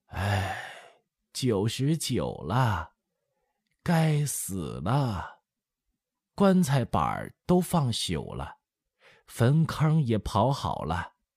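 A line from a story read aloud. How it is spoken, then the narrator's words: Sighing old woman. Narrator (Chinese): 老太太 叹了一声说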